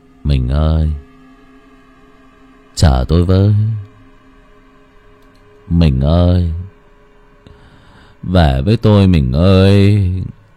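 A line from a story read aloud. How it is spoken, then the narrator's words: Muttering while walking. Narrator (Vietnamese): Miệng của chú Dụng vừa đi vừa lẩm bẩm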